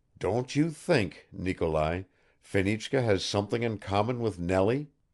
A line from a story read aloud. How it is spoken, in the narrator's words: he murmured